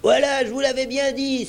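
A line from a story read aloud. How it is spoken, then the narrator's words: Exclaimed. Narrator (French): s'écria Morgan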